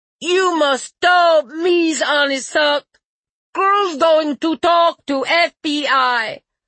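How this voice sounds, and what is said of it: Atrocious fake Russian accent. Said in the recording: “in an atrocious Russian accent”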